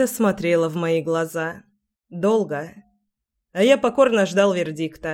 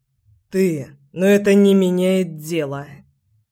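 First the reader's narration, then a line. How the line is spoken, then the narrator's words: Hoarse declaration. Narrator (Russian): заявил я сипло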